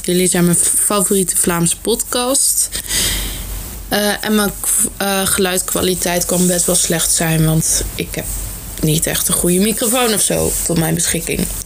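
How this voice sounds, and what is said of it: Netherlands Dutch accent. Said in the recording (Dutch): “Ik ben niet Vlaams, maar Nederlands. Dus alvast sorry voor mijn accent.”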